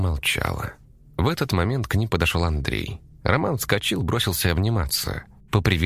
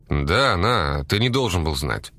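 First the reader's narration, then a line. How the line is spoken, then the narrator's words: Grumbling mutter. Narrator (Russian): пробурчал Андрей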